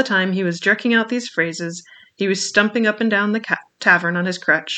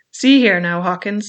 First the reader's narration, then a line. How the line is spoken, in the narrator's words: said he